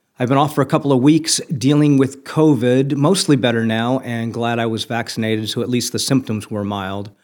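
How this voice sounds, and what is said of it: Voice not fully recovered, weakened. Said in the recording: “my voice isn't all the way back yet”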